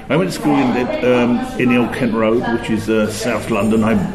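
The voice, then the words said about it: Working-class English accent. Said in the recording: “Like all the English people, you can tell from my accent, I'm working class.”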